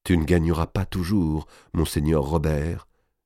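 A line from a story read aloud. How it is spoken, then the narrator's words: Whispered. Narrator (French): disait-elle tout bas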